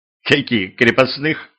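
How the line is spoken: Giggling, shivering. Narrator (Russian): хихикнула, поеживаясь Юля

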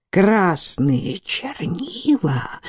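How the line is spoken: Whisper, then wild laughter. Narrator (Russian): прошептал и разразился неуправляемым хохотом

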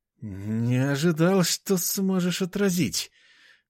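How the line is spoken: Forced out after hesitation. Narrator (Russian): выдавил он после секундного замешательства

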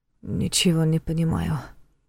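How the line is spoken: Muttered. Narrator (Russian): пробормотал Войтах

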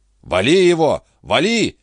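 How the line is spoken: Shouting. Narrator (Russian): крикнул Торгюсон

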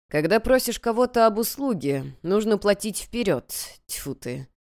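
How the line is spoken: Dry mutter. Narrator (Russian): Сухо пробормотал Ли

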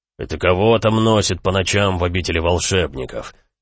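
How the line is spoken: Menacing question, fat man. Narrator (Russian): грозно вопросил толстый Эрли

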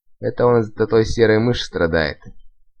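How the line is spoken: Snide hiss. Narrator (Russian): ехидно прошипела какая-то девка

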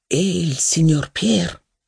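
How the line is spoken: Low voice. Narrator (Italian): risposi a bassa voce

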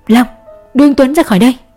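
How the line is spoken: Loud shout. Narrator (Vietnamese): Cường Đen hét lớn

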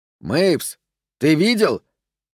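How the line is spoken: Distant shout. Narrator (Russian): кричал голос передней платформы

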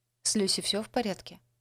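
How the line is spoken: Plain. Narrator (Russian): спросила она

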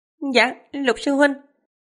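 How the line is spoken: Laughing, good-natured reply. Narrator (Vietnamese): Trương Tiểu Phàm không nhịn được cũng bật cười, đáp

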